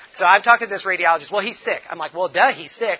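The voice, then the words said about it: French accent. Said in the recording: “my beautiful French accent”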